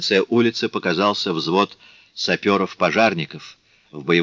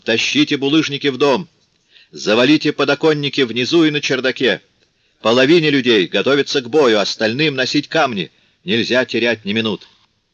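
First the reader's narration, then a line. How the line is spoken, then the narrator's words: Thunderous shout. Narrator (Russian): Анжель Расс крикнул громовым голосом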